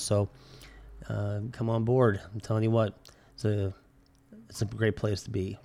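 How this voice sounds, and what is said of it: Sick-sounding voice. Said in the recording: “I apologize for my voice. I've been dealing with a pretty bad chest infection”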